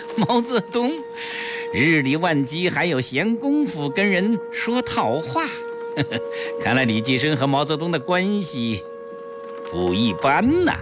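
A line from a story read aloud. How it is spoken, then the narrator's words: Man laughing loudly. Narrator (Chinese): 黑衣人哈哈大笑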